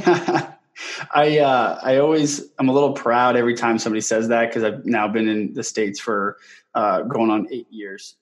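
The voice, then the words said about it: Canadian accent. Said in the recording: “I thought I noticed an accent. ... born and raised in Canada, in southwestern Ontario ... I've still maintained my accent that comes out every now and then”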